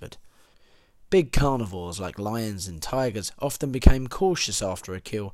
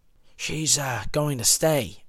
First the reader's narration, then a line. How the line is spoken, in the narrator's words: Regis whispered